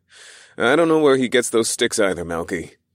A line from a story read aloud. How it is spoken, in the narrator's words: I chuckled